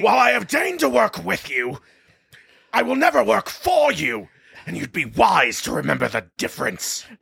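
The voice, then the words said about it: Angry Leonard Nimoy Sentinel impression. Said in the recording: “That was as good as I can get to a Nimoy impression. ... that was angry, ... at least for angry, a Sentinel impression.”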